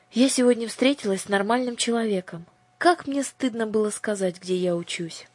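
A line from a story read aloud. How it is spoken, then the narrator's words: Deep sigh, then answer. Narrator (Russian): Аннушка глубоко вздохнула и ответила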